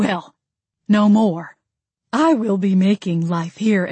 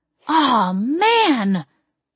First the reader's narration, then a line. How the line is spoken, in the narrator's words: Jamie cried in disgust